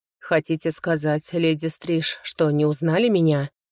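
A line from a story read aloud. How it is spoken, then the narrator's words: Plain question. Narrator (Russian): спросил мужчина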